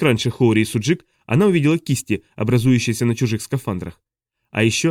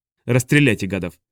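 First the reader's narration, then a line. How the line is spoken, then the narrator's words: Calm, cold. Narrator (Russian): произнесла Хоори так спокойно и холодно, что сама испугалась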